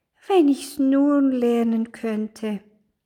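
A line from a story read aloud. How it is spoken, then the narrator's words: Sighed. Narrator (German): seufzte es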